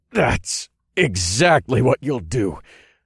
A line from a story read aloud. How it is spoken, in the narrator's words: I grunted, that it took all my willpower to speak